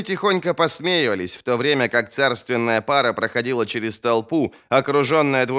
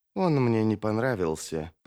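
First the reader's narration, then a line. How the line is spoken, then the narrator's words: Low mutter. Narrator (Russian): пробормотала Арди вполголоса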